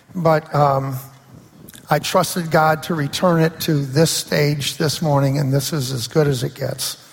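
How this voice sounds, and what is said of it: Raspy, hoarse voice. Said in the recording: “my voice. Uh, it's a little bit raspy. I've had laryngitis this week, probably the worst case of it in my life”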